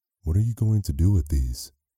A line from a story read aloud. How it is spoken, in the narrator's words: Evan Mitchell asked